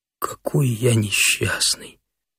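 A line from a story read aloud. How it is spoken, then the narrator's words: Mumbling. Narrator (Russian): забормотал он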